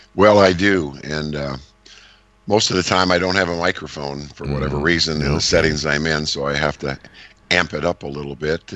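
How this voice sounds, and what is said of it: Slightly strained, hoarse voice. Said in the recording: “my voice is a little bit different ... you maybe strained it just a little bit there ... step one of a cold that's just starting in my throat”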